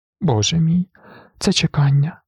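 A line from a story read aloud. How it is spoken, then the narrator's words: Sobbing. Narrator (Ukrainian): схлипнула вона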